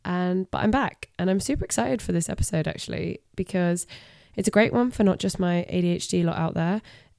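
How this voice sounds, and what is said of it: Voice sounds sick. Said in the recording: “As you can potentially tell and hear in my voice, your girl has been sick.”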